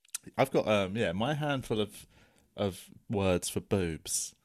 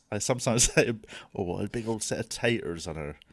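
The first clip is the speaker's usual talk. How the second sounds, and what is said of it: Put-on West Country English accent. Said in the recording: “I can't say that word without going into sort of a West Country accent ... a lot of mine are West Country”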